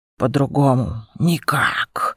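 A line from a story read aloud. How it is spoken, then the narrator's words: Sigh. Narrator (Russian): вздохнул Аякс, поняв мой ужас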